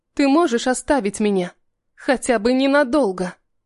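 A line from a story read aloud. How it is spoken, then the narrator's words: Sighing. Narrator (Russian): Он вздохнул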